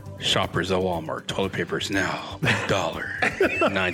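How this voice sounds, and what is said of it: Smooth radio DJ announcer voice. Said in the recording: “When you do that voice, man, like, I think you're about to like announce some slow jams here on Power 106 ... in my cool voice”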